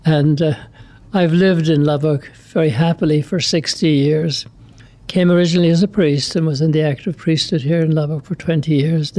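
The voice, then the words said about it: Irish accent. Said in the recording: “the listeners will probably gather from my accent that I'm from somewhere else. I'm from Ireland.”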